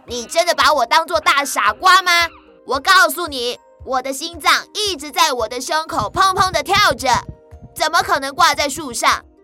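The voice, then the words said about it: Angry monkey character voice. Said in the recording (Chinese): “从树上传来猴子生气的声音说”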